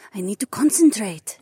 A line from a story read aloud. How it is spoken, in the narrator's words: Jessamine hissed